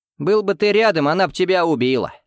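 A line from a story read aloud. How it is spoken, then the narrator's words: Short laugh. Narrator (Russian): хохотнул я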